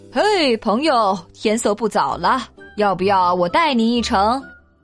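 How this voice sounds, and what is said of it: Loud, ringing character voice. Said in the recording (Chinese): “一个响亮的声音说道”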